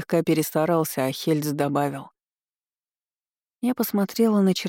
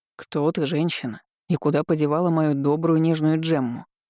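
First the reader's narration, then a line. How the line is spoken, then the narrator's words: Grim joking. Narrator (Russian): мрачно пошутила Алистер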